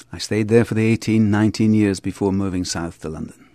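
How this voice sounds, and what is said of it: Mild east Scottish accent. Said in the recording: “I'm Scottish ... on the east side of Scotland, which means I don't have a great accent ... people can't quite determine where I'm from”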